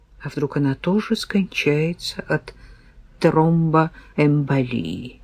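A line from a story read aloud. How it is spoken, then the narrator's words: Muttering. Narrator (Russian): пробормотала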